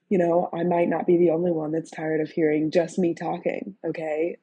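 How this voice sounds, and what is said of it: Hoarse, sick-sounding voice. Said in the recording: “spare my voice a little bit. As you can tell, it's quite hoarse ... It hurts. It hurts a little bit. ... I'm a little sick”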